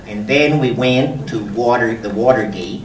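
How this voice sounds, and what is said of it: Bad impression, flat Midwestern cadence. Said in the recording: “he's got that real flat Midwestern cadence ... my bad Bob Woodward imitation”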